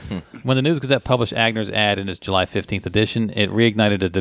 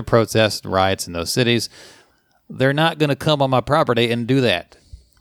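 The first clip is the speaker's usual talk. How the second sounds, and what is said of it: Put-on Southern Roanoke accent. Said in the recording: “That's a genuine Roanoke accent ... I'm a chameleon with Southern accents.”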